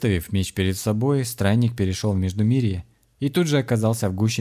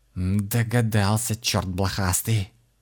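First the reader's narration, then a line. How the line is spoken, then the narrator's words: Hissed. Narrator (Russian): прошипела Кристина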